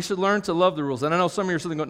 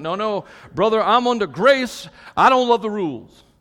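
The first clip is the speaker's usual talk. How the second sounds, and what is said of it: Put-on Southern accent. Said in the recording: “when I put a negative personality in my head, they always have a southern accent.”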